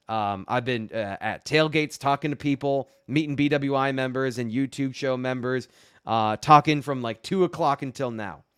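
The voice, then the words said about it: Worn-out strained voice. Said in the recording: “My voice is it's on its last legs”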